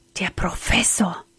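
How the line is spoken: Frightened whisper. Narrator (German): flüsterte erschrocken

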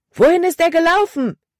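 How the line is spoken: Loud shout. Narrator (German): rief Caleb laut

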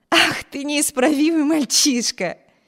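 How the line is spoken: Laughing. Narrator (Russian): рассмеялась Эми

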